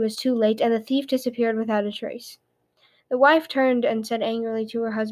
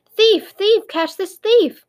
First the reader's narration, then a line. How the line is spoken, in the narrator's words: She shouted in a loud voice